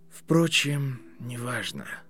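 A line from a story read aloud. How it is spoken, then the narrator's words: Sighing. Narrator (Russian): сказал Ремус и вздохнул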